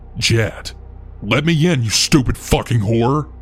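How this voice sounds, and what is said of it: Deep aggressive male voice. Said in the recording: “I heard a deep voice from the other side.”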